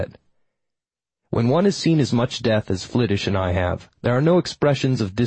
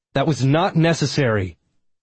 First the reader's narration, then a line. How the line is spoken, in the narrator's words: I shouted